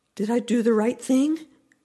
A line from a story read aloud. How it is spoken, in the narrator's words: I begged her, needing absolution, needing the blessing of my goddess